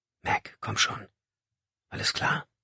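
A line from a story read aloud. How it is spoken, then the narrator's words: Whispering again. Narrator (German): flüsterte er wieder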